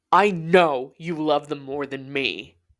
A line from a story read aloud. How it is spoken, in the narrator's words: April shouted